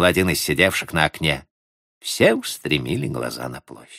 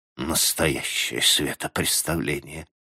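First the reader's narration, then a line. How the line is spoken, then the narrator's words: Muttering. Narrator (Russian): пробормотал Минье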